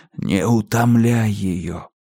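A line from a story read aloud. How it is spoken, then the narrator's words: Soundless mouthed whisper. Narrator (Russian): губы Уайермана беззвучно прошептали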